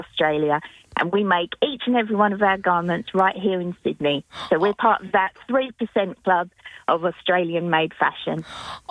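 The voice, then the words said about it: English accent. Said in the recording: “I may have an English accent”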